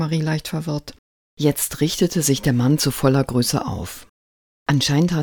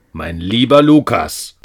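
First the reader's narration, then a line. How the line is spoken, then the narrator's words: Angry man growling. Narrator (German): knurrte der Mann böse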